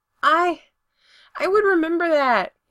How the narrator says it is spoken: he yells

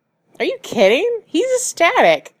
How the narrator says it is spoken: Allison enthused brightly

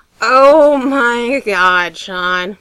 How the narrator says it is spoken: Tom groaned

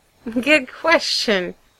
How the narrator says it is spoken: Brendan says, laughing kind of awkwardly

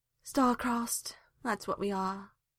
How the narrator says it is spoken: sighed Hawk

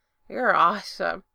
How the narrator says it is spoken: Gerard mumbled

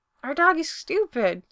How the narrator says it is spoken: Spencer says happily

